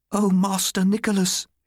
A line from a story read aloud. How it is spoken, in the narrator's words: she cried